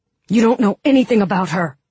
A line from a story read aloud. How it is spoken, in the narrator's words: Mal said fiercely